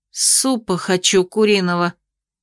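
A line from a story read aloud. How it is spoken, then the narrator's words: Gloomy declaration. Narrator (Russian): мрачно заявила я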